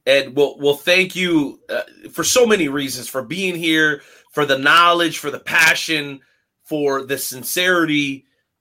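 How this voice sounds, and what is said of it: Choked-up emotional voice. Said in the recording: “I'm getting choked up over here, man.”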